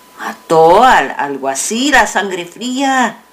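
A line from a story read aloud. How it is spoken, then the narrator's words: Plain. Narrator (Spanish): dijo otro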